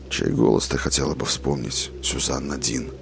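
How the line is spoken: Quiet, thoughtful question. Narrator (Russian): Негромко и задумчиво спросил Роланд

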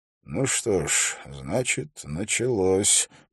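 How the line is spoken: Mysterious mutter. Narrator (Russian): пробормотал он загадочно

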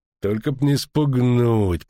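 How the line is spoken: Through gritted teeth. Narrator (Russian): процедил Филин

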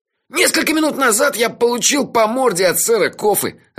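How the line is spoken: Laughing. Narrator (Russian): рассмеялся он

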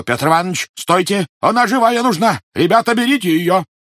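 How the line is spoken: Warning shout. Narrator (Russian): Предостерегающий крикнул

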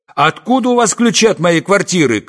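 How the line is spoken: Indignant yelling wail. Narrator (Russian): крикнул я возмущенно, а, может быть, взвопил

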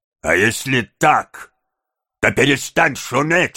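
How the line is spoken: Grumbling voice. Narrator (Russian): сказал Сайкс тем ворчливым голосом, которым привык говорить, обращаясь к своей собаке

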